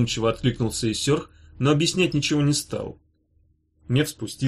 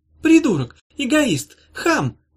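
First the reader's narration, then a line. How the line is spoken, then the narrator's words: Shrill angry scream. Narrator (Russian): визгливо закричала она на Иссёрха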